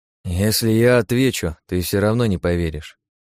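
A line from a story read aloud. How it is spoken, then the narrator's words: Sad chuckle. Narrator (Russian): грустно усмехнулся я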